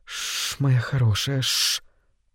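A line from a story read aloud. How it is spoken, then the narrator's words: Soothing whisper. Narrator (Russian): Карен приговаривая шепотом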